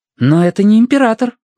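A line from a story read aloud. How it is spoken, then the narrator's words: Exclamation. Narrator (Russian): воскликнула Сун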